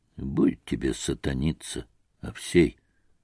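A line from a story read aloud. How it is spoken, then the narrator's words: Tired gypsy's voice. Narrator (Russian): проговорил цыган устало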